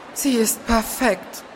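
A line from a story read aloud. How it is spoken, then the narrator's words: Werewolf murmuring. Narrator (German): murmelte der Werwolf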